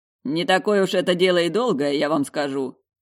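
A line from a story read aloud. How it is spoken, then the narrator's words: Chuckle. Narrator (Russian): Хохотнул Нагорный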